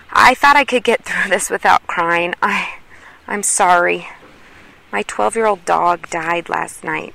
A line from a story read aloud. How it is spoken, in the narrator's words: she breathed